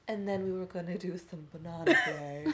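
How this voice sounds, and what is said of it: Weird transatlantic accent. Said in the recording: “Like weird transatlantic accent”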